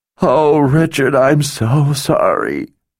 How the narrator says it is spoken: wailed between racking gasps

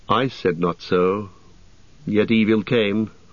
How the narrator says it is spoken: answered Legolas sadly

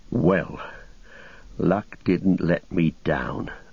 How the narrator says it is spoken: muttered Sam

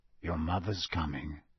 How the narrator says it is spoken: he said quietly

